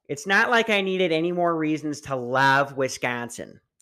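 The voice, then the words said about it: Put-on Wisconsin accent, hefty woman. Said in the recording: “in a fat Wisconsin voice ... this one's a hefty lady”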